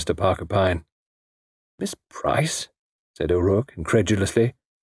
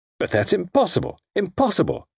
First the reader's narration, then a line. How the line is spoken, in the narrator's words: spluttered O'Rourke